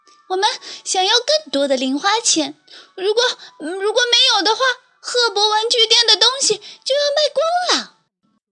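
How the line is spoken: Breathless child. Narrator (Chinese): 小熊妹妹气喘吁吁地说

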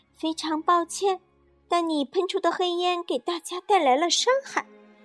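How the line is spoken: Gentle. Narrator (Chinese): 柔柔立刻温柔地说

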